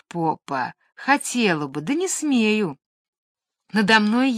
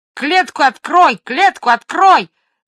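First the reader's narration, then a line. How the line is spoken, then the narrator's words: Sudden parrot squawk. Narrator (Russian): заорал вдруг попугай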